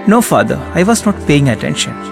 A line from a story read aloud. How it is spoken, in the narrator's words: she said